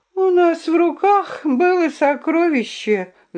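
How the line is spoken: Sigh. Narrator (Russian): вздохнула Друмля

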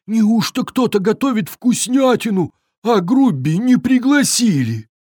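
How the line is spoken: Sorrowful sobbing troll. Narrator (Russian): Тролль горестно всхлипнул

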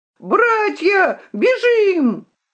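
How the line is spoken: Shrill shout. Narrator (Russian): крикнул пронзительным голосом

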